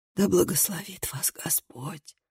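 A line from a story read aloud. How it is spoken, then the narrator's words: Old man's wheeze. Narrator (Russian): прохрипел старик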